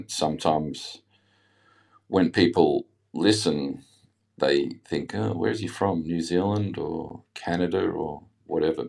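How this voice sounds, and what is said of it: Australian accent with some English influence. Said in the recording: “I obviously have an Australian accent, but I lived in England for a year when I was 18. So my accent”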